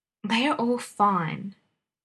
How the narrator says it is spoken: the young man interrupted testily

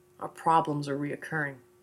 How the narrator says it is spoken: Bobby whispered in my ear

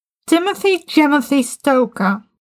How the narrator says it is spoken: Sasha yelled

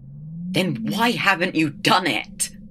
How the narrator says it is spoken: The Doctor cried

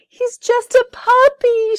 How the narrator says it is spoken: she cried

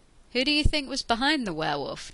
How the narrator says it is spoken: Jack asked dryly

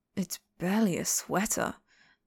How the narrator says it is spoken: Mu Qing mumbled

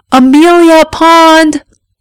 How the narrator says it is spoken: he shouted, fit to wake the whole neighborhood

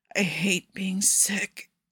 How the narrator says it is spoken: Nikki whispers, like it's a secret

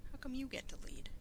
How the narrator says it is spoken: Rodney faltered, all of his momentary bravado disappearing

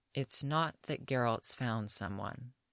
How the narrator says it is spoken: Yennefer says slowly

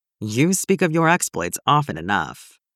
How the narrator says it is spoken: With a humorless chuckle, Leon replied

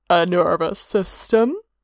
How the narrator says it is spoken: Hermaeus suggested dryly

